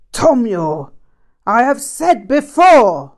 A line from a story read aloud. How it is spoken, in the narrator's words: Rinpoche yelled with great force